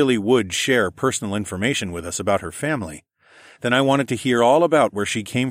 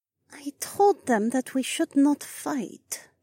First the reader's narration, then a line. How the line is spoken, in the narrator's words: the alien said quietly